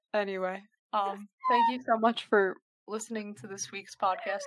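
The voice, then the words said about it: Tired, strained voice. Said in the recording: “sorry I sound like a dying animal. I'm just quite tired.”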